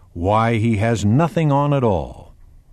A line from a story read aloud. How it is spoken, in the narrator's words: a little child exclaimed